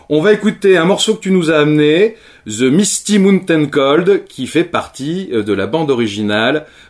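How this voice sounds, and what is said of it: Accented English pronunciation. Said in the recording (French): “Je vois les gens qui sourient autour de moi, c'est à cause de mon accent anglais.”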